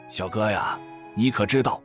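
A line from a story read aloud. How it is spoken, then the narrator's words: Old man's low sighing voice. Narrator (Chinese): 老翁听了，连连叹息，低声道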